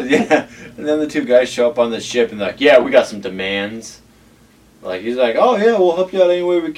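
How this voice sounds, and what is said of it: Usual voice. Nothing is said of it.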